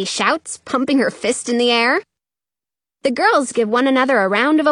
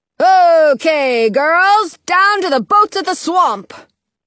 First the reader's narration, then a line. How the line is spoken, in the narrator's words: General Glover shouts